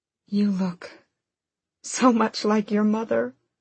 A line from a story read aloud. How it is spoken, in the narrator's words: Aelin said, her voice cracking